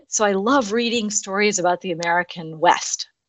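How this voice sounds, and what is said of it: American accent. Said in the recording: “as you can hear from my accent, I'm originally from the United States, and I'm actually specifically from Seattle, Washington”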